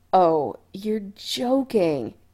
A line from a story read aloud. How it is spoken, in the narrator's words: Adam moaned in horror